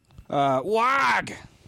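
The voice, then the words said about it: Squawking cartoon duck voice. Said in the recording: “my Howard the Duck impression... That's good.”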